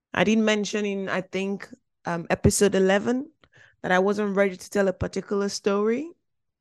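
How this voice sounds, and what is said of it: Voice sounds off from illness. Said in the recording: “my voice sounds a bit funny as well today because I'm a little under the weather”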